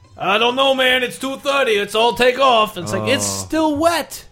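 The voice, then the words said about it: Put-on New York accent. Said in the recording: “That accent. ... New York.”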